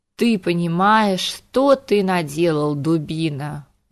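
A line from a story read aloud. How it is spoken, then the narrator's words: Tired sigh. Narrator (Russian): Устало вздохнул Харган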